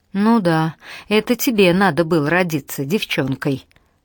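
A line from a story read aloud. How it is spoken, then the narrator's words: Laughing. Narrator (Russian): рассмеялась Алана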